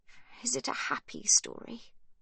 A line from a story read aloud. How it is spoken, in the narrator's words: she asks quietly